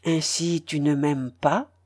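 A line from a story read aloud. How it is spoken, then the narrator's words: Low question. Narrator (French): demanda-t-il d'un ton bas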